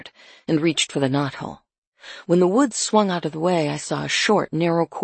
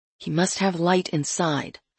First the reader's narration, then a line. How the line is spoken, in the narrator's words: I said quietly